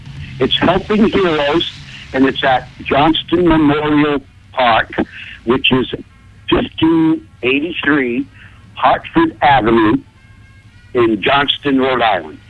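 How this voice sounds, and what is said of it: Rhode Island accent. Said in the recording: “I love that Rhode Island accent.”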